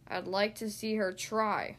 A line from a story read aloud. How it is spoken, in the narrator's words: groaned Goose